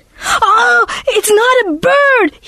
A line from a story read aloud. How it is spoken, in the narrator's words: he screamed